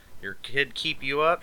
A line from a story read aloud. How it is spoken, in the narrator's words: she asked